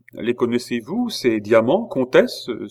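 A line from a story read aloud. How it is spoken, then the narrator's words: Queen exclaiming. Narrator (French): s'écria la reine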